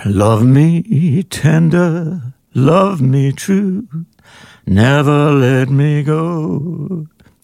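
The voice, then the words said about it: Imitates another person's singing voice. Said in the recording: “can you do your yeah, Elvis impersonation”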